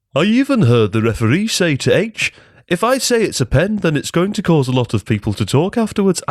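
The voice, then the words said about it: Put-on generic footballer voice. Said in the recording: “I'm going to do my best impression of just a generic footballer now ... I think that was my Paul McCartney ... very, very southern”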